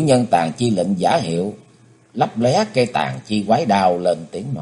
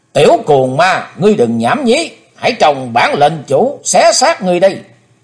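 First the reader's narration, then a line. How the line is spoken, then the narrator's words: Shouting. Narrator (Vietnamese): Cũng theo tiếng quát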